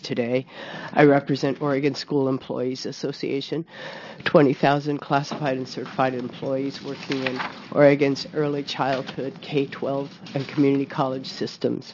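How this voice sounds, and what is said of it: Impaired, unwell-sounding voice. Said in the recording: “apologize for my voice”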